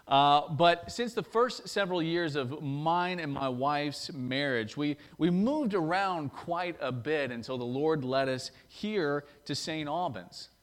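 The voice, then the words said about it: Thick Southern US drawl. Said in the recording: “my thick southern drawl”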